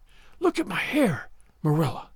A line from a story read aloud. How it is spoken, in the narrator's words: she whispered